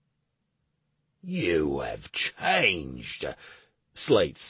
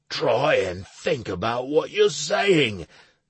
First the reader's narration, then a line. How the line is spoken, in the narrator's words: Slade exclaimed